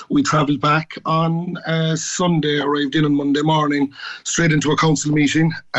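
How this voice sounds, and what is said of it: Slightly hoarse voice. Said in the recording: “you'll have to excuse me if I'm a bit hoarse”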